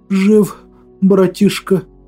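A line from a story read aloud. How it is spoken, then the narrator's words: Exhausted breathless exhale. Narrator (Russian): Выдохнул я, держась из последних сил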